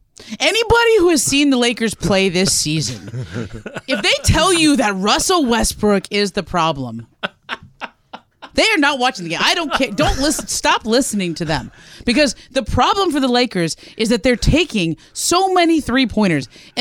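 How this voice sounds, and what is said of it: Impression of an agitated co-host. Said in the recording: “your John impression”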